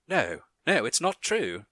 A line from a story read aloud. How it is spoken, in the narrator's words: exclaimed